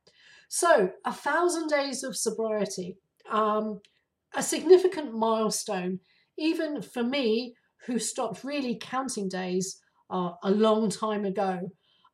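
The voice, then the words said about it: Raspy, hoarse voice. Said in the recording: “I am on the tail end of flu. So that's why I have this raspy sounding voice and why occasionally I'm going to cough”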